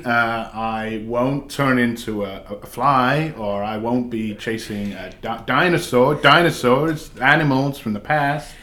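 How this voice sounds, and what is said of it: Jeff Goldblum impression, halting stammer. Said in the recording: “quite a good impression... You had Jeff Goldblum down... doing an impression of Jeff Goldblum”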